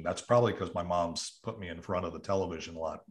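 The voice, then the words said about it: Neutral broadcast-style American accent. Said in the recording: “somehow I ended up with a TV accent. That's what I'm accused of is sound like, somebody on television.”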